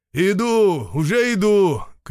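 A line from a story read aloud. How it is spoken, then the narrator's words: Shout. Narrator (Russian): крикнул он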